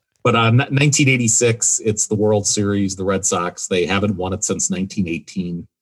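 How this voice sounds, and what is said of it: Wisconsin accent. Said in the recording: “I have a Wisconsin accent”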